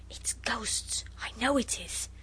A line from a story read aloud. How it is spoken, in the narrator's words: Noel whispered